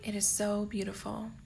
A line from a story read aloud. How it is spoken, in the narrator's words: Harry whispers